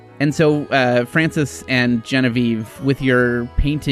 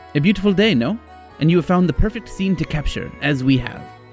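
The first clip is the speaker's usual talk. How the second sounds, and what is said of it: Put-on French accent. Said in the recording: “the one who spoke to you in a French accent”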